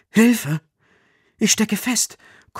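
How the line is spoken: Panting. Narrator (German): keucht Nils

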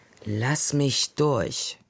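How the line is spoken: Growl. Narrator (German): knurrte Lenja

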